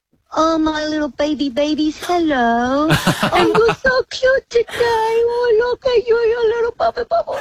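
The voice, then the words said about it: Baby voice. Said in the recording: “talk to us in a baby voice.”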